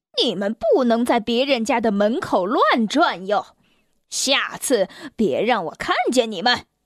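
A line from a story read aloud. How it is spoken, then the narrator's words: Roaring angrily. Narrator (Chinese): 他咆哮着说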